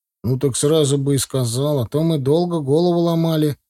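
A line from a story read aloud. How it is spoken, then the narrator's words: Displeased grumble. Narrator (Russian): недовольно буркнул Леха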